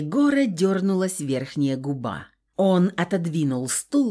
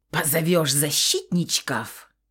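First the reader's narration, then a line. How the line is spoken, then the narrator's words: Spluttering hiss. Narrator (Russian): прошипел он, брызгая слюной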